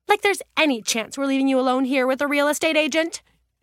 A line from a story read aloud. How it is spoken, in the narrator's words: Julia snapped